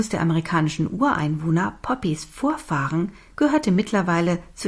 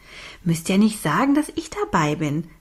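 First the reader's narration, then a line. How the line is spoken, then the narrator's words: Giggling. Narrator (German): Sie kicherte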